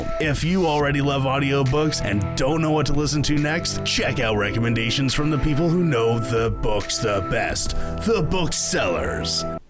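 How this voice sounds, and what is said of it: Radio movie trailer announcer voice. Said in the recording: “that was your best radio voice. Yeah, it was like radio / movie trailer voice.”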